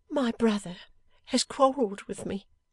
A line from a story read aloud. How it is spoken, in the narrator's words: sobbed Lizzie